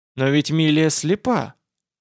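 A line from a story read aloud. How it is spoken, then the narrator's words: Uncertain objection. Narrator (Russian): возразил я неуверенно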